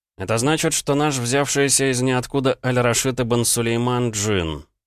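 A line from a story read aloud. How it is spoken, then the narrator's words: Grim reply. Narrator (Russian): мрачно ответил я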